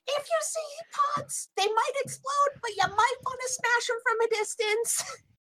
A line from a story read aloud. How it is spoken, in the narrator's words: she's going to shout at everyone